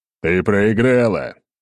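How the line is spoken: Loud declaration. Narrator (Russian): громко заявил я

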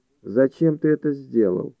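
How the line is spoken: Calm, unsurprised question. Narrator (Russian): спросила Хайди спокойно, без малейшего удивления

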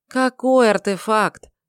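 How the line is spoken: Weary, dejected sigh. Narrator (Russian): тоскливо выдохнул Шамит

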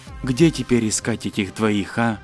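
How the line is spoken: Whispered. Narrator (Russian): Лев прошептал

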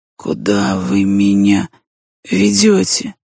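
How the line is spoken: Weak, pitiful question. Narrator (Russian): Слабым голосом вопрошал бедняга

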